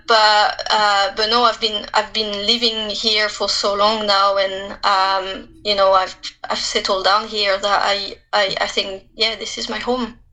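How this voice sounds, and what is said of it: French accent. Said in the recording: “I'm French. Obviously, you can hear it. I sound very French.”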